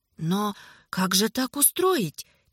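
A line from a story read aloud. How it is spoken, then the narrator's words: Quiet question. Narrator (Russian): тихо спросил Фрушар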